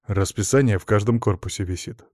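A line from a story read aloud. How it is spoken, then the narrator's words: Grumbling. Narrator (Russian): буркнул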